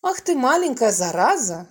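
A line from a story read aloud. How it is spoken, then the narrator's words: Laughing. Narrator (Russian): засмеялся Володя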